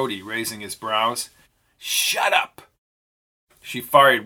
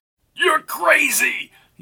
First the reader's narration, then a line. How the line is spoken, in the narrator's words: yelled Rhodey